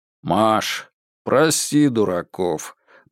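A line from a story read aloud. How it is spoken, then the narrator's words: Deep bass voice. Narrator (Russian): пробасил сбоку Сергей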